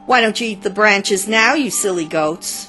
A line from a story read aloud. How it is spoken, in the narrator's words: I had triumphed and called out to them